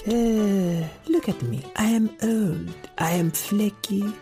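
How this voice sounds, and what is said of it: Inconsistent put-on accent. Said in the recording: “My accent is inconsistent.”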